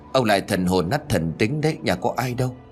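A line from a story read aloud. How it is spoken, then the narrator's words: Muttering old woman. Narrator (Vietnamese): Bà lẩm bẩm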